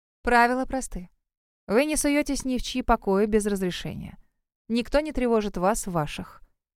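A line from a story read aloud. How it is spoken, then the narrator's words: Calm explanation. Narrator (Russian): объяснила Тора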